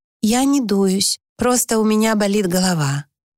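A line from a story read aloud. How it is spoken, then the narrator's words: Forced very even voice. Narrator (Russian): Ей даже удалось произнести очень ровным голосом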